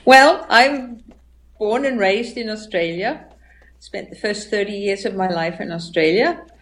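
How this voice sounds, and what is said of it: Hard-to-place mixed accent. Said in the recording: “people are going to hear your accent, and they're going to have a really, really hard time figuring out where you're from ... That's a messed up accent right there.”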